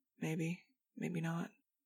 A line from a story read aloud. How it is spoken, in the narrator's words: Fang, of course, who just muttered